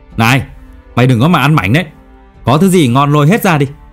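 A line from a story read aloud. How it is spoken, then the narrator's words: Sudden shout. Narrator (Vietnamese): Khuyên Tay Vàng bỗng hét lên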